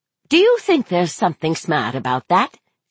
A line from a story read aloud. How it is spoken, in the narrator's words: She asked sharply